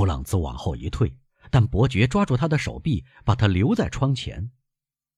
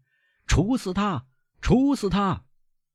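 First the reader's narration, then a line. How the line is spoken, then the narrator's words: Huge crowd shouting together. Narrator (Chinese): 两万个声音齐声呼喊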